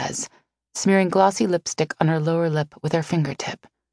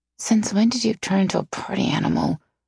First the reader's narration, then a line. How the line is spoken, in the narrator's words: I mutter